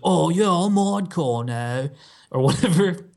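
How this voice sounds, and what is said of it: Mock British accent. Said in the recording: “That was a British accent.”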